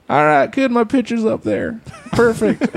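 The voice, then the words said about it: Imitates another person's voice. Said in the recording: “That was such a good impression. ... Was that Bill Clinton?”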